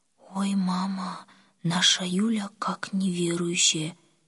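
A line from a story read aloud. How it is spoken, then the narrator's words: Quiet. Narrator (Russian): тихо сказала Оля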